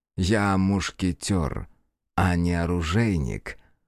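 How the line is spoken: Slow reply. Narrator (Russian): медленно ответил Ли

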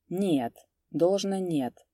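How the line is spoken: Quiet objection. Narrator (Russian): возразил также тихо Куприян

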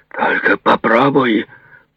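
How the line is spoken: Growled. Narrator (Russian): прорычал Демарко

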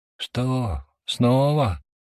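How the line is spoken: Sorrowful sigh. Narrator (Russian): горестно вздохнул я

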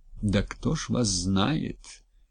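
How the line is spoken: Quiet, melancholy. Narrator (Russian): Тихим, тоскливым голосом откликнулся Василий Алексеевич

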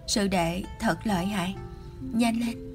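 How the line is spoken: Trembling uncontrolled moan. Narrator (Vietnamese): Lục Tu Văn bị hắn làm tới hai chân phát run, không kiềm chế được rên lên

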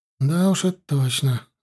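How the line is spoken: Sad sigh. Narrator (Russian): вздохнул печальный пехотинец

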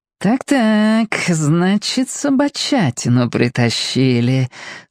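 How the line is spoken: Curious purr. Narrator (Russian): с интересом промурлыкала тетя Лена

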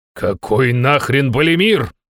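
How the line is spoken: Indignant. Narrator (Russian): возмутился

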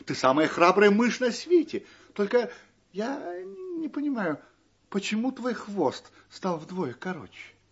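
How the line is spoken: Exclaiming. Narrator (Russian): воскликнула

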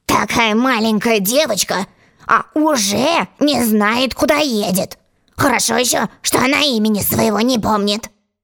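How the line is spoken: Gentleman grumbling. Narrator (Russian): Джентльмен, сидевший напротив Алисы, проворчал

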